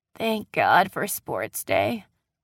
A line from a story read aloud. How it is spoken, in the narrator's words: Ryan said hoarsely